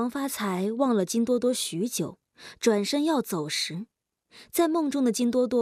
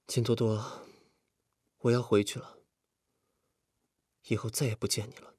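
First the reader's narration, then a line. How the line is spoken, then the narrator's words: Low muttering to self. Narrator (Chinese): 王发财忽然觉得自己很可笑，低声自言自语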